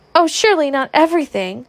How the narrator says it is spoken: cried the girls in dismay

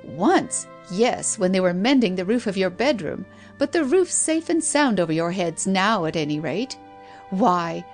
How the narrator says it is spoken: laughed

